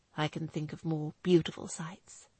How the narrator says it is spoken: Nick replied quietly

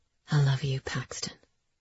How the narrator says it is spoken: he whispered

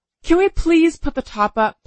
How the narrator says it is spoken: pleaded my increasingly frizzy-haired sister

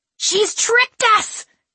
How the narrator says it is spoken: Kiernan shrieked

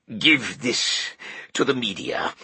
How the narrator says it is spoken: Kohler gasped

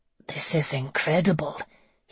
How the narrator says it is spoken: he said in a whisper

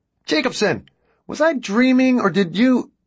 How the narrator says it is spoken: Ben shouted

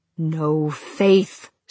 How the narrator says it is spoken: snarled the Reaper

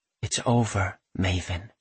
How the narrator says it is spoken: she whispers

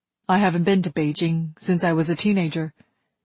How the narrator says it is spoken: he said

